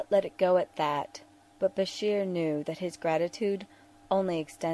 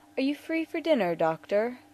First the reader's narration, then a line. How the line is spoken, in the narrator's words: Garrick asked, smiling warmly